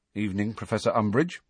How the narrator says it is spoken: Harry said stiffly

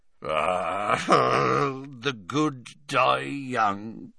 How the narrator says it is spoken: muttered Hagrid

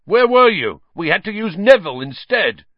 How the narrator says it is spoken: Wood was yelling

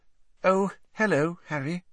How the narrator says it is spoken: she said in a brittle voice

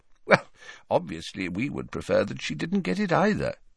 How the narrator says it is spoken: said Dumbledore calmly

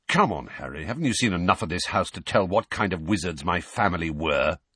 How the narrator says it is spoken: said Sirius testily

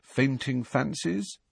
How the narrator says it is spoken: Harry suggested quietly

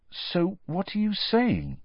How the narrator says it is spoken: said Harry slowly

